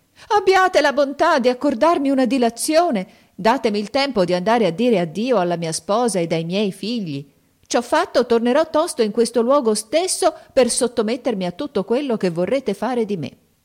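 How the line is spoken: Desperate crying plea. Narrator (Italian): il mercante vide che il genio stava per troncargli la testa, gettò un grido e gli disse

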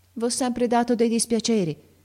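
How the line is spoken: Struggling, trembling voice. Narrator (Italian): continuò Ferruccio a stento, con la voce tremola

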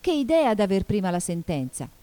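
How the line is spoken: Exclaimed. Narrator (Italian): esclamò Alice

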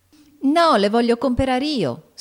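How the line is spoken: Girl shrieking. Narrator (Italian): strillò Amy

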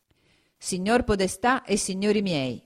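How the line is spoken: Plain. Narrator (Italian): disse

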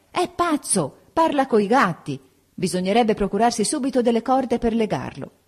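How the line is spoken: Shouting. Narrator (Italian): Anna gridò

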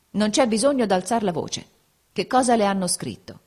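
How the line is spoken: Cold, calm reply. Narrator (Italian): rispose, freddo e calmo

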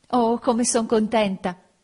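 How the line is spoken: Exclaiming in French. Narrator (Italian): esclamò in francese

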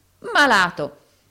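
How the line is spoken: Sick man, gasping breathlessly. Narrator (Italian): esclamò l'infermo anelando e respirando a fatica

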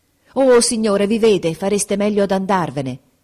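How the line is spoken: Exclaimed. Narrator (Italian): esclamò Grace

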